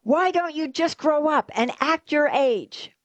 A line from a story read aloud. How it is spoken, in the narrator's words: you'll explode and shout to all the kids